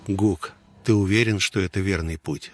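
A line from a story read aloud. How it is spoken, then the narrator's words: Plain. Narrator (Russian): спросил я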